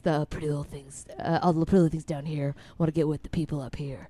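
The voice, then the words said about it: Low voice imitating a TV character. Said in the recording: “Do you have a Jack Donaghy? Can you do the low voice?”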